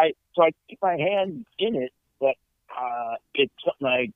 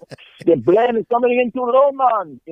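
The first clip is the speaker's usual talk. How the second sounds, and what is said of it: Put-on accent, voiceover bit. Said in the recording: “if you're making accent of a guy saying the plane's coming in too low”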